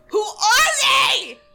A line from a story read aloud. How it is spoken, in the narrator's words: I screamed